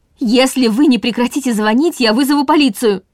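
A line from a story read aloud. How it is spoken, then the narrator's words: Shouted through door. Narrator (Russian): крикнула она через дверь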